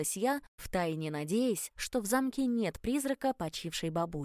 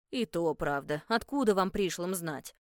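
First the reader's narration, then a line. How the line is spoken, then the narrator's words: Grumbled. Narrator (Russian): буркнула Эмма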